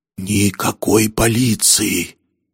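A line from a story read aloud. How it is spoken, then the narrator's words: Strained breathless gasp. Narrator (Russian): с трудом выдохнул он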